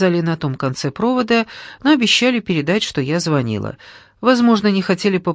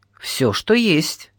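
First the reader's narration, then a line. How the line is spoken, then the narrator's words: Snort. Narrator (Russian): Олег хмыкнул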